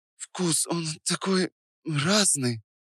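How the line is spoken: Quiet. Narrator (Russian): тихо произнесла она

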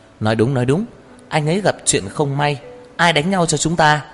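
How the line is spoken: Eager, smiling voices. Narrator (Vietnamese): Tô Lạc Hoành cùng Tào Anh Kiệt và Lâm Sở Nhai rối rít nở nụ cười

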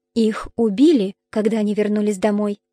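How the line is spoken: Quiet. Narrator (Russian): тихо добавила Пенелопа

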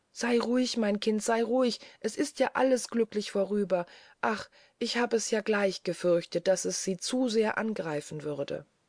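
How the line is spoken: Mother's trembling call. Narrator (German): rief die Mutter wieder mit zitternder Stimme

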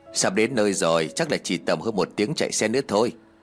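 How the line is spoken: Smiling. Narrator (Vietnamese): Bố Tiên liền mỉm cười

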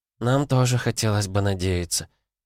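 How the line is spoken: Sad woman's reply. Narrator (Russian): грустно ответила женщина

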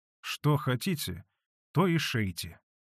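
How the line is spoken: Quiet. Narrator (Russian): тихо молвила мать Манефа

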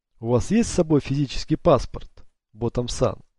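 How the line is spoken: Plain. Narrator (Russian): спросил Сато

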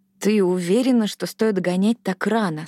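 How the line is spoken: Plain. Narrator (Russian): спросила она

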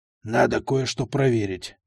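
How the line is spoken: Grumbled. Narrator (Russian): буркнул

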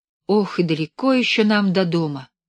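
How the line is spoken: Heavy sigh. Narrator (Russian): тяжело вздохнула Белка

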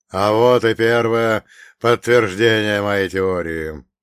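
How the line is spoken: Officer's nervous chuckle. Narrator (Russian): нервно хохотнул гауптштурмфюрер СС

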